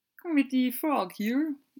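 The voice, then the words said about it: Kermit the Frog character voice. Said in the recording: “That's my Kermit impression.”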